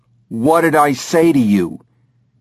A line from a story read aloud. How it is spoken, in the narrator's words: She yells at him